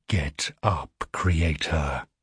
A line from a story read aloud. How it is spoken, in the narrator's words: says, her voice as hard as the blade she carries